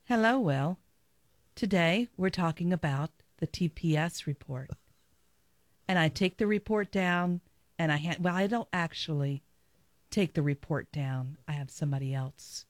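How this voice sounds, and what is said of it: NPR-style corporate radio voice. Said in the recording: “do an NPR impression ... you could do a great NPR voice. Just do your corporate speech voice”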